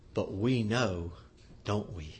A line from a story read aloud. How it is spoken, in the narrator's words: Paul Harvey kind of lowers his voice to a whisper and says